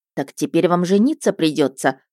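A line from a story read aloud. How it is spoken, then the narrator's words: Scoffing chuckle. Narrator (Russian): хмыкнула я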